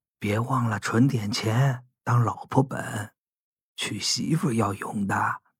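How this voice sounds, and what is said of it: Lowered, whispering voice. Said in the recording (Chinese): “他压低声音。像说悄悄话那样”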